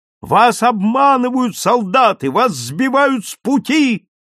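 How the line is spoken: Repeated shout. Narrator (Russian): снова крикнул полковник Стюрлер

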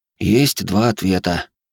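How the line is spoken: Sighing. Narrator (Russian): вздохнул я

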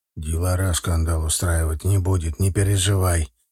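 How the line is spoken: Soft whisper. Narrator (Russian): тихонько шепнул он мне

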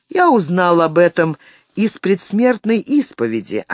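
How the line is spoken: Plain. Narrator (Russian): ответил Уоллеран

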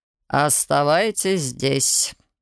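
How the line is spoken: Stern command. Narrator (Russian): велел строго инквизитор

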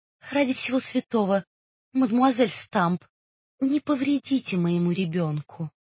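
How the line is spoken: Timid request. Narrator (Russian): робко попросила

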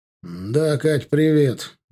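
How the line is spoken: Tired, into phone. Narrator (Russian): устало проговорил он в трубку

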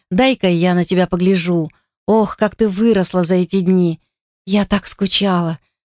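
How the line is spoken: Tearful, sobbing. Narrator (Russian): всхлипнув, произнесла Дайан, и слезы заблестели в глубине глаз

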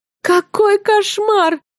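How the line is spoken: Emotional exclamation, muffled. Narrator (Russian): с чувством воскликнула я, утыкаясь в подушку лицом

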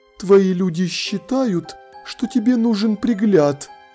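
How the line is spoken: Even more timid. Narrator (Russian): еще более робко сказала она

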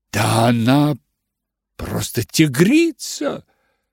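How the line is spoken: Exclamation. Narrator (Russian): воскликнула миссис Линтон

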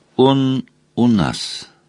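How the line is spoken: Plain. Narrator (Russian): сказала Мэйлань

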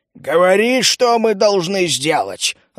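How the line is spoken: Growl. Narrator (Russian): рыкнул Мрак

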